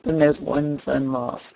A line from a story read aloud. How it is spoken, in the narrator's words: said it in a very mournful tone, as one greatly concerned at it